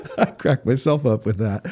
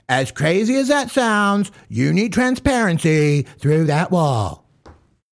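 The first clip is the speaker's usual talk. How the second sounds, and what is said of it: Deliberately bad imitation of another person's voice. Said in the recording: “That's one of the worst Donald Trump impersonations I've ever heard ... It's like I'm doing a bad impersonation of Trevor Noah doing a bad impersonation of Donald Trump”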